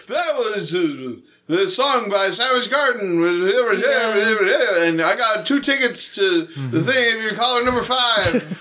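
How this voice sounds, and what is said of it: Radio DJ voice. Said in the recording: “That's my radio DJ voice. ... you know what people sound like on the radio”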